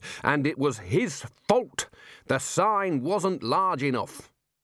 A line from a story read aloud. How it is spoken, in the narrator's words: roared the Dean